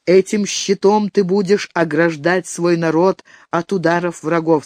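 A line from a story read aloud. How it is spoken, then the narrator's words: Plain. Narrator (Russian): сказал старик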